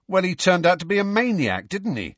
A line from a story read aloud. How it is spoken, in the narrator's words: said Dean hotly